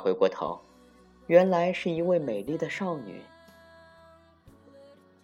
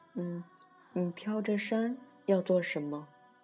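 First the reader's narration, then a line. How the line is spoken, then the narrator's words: Gentle. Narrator (Chinese): 一个温柔的声音问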